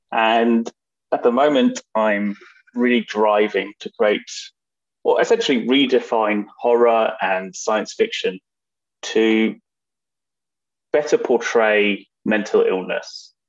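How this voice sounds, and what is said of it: London English accent. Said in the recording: “as you probably realized from my accent, I'm a London filmmaker in England”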